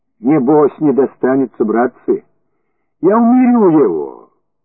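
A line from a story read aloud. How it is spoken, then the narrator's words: Calm friendly voice. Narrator (Russian): Проговорил вдруг своим спокойным и приветным голосом Коноплев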